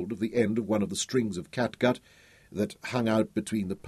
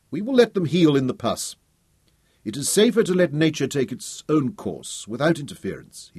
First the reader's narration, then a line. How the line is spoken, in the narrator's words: he said sternly